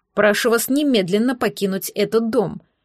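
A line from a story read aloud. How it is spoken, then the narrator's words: Angry. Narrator (Russian): сердито произнес лорд Бьорн-младший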